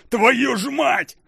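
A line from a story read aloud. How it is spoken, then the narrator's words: Roared. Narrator (Russian): взревел Алекс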